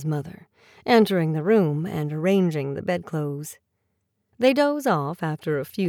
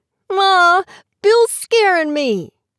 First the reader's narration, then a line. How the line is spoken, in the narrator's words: yells Henry